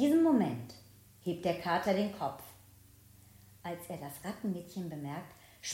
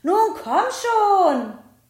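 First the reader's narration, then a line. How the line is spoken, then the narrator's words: Calling. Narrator (German): ruft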